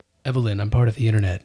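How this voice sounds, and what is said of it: Johnny Depp impression. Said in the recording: “an impression of him in Transcendence? As Transcendence. ... Whoa. Johnny Depp's here. ... That wasn't ... talking.”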